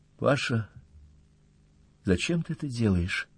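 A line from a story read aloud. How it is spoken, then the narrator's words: Quiet, sad question. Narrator (Russian): спросила тихо и печально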